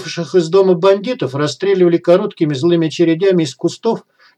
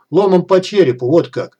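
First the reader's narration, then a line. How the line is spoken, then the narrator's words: Pleased snort. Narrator (Russian): довольно хмыкнула девушка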